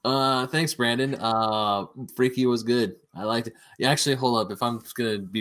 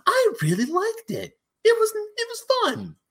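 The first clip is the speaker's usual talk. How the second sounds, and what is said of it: Imitates another person's voice. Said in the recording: “That's actually not a bad impression of Ryan.”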